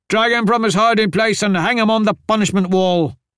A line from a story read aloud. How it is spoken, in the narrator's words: Govind bellowed